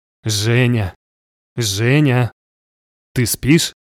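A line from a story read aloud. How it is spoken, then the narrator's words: Thin little voice. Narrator (Russian): тоненький голосок Аники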